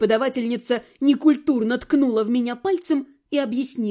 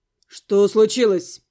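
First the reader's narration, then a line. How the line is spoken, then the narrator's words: Stern question. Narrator (Russian): переспросил брюнет строго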